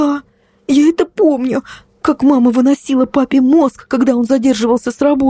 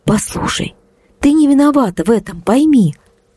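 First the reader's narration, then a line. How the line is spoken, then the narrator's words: Soft, gentle. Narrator (Russian): мягко сказала я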